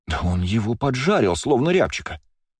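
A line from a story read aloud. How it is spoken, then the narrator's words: Exclaiming. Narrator (Russian): воскликнула Лия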